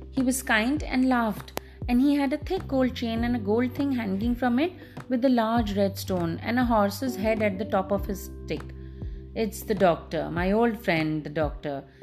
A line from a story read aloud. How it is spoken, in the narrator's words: exclaimed Clara and her father at the same moment